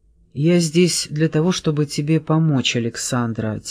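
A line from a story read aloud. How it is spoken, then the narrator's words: Quiet. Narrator (Russian): тихо произнес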